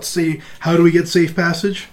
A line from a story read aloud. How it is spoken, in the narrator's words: You yell, you yelled out